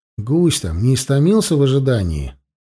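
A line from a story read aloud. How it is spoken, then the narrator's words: Theatrical sigh. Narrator (Russian): Полянский картинно вздохнул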